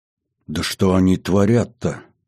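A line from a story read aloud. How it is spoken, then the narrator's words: Strangled angry hiss. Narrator (Russian): сжимая кулаки, сдавленно прошипел Зыкин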